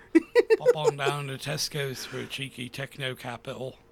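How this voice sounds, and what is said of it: Put-on thick British accent. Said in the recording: “that thick ass British accent”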